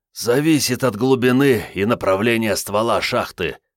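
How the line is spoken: Wheezing officer. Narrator (Russian): просипел майор-подрывник

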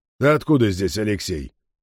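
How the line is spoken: Mildly surprised question. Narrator (Russian): Не строго, просто удивленно спросил он

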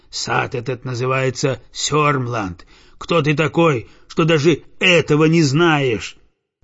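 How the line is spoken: Rough voice. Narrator (Russian): Садовник грубым голосом отвечает

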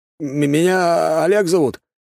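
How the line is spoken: Halting, stammering. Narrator (Russian): начинает он, запинаясь

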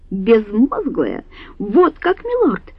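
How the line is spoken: Shrill squeal. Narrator (Russian): взвизгнула

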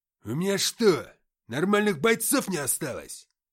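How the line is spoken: Gruff bark. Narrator (Russian): рыкнул Антоха

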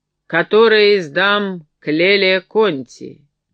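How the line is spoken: Authoritative question. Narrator (Russian): спросил властным тоном

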